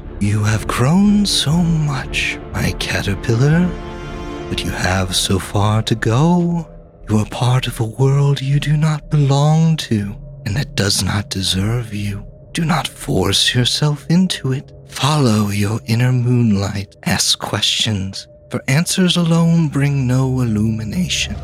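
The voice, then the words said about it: Dreamy whisper. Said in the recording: “The figure whispers in a dreamy voice”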